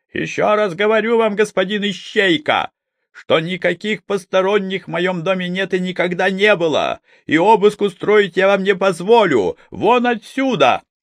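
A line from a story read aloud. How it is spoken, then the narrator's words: Gentleman shouting. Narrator (Russian): Барин, лет 30, с породистым округлым лицом, напирал на невозмутимого Щукина и кричал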